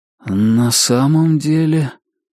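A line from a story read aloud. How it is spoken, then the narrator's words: Slow speech. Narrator (Russian): медленно проговорил Ричард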